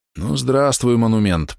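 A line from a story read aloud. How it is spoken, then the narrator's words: Hoarse wheeze, bloody mouth. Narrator (Russian): прохрипел снайпер, сплюнув кровь изо рта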